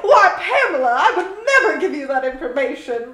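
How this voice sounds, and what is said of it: Put-on transatlantic accent. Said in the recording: “speaking to her in a transatlantic accent”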